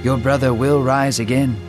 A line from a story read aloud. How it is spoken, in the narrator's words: Jesus said in a comforting tone